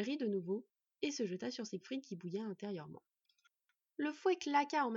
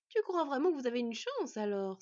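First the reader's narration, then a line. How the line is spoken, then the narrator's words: Laughing question, woman. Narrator (French): s'enquit la femme en riant toujours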